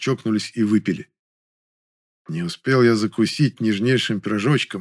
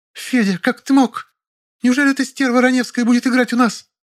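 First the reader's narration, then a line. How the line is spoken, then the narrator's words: Shrill squeal, cut short. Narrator (Russian): На последней фразе она взвизгнула, но осеклась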